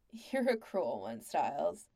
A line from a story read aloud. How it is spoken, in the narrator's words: Pete said with a laugh